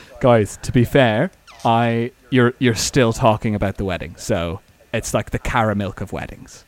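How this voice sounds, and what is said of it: Attempted Irish accent impression. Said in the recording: “Irish guy ... Irish accent's hard ... Could you do him a bit more Dublin 4”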